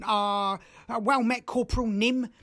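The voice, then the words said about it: Put-on Cockney accent. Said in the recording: “he's going to have a bit of a Cockney accent”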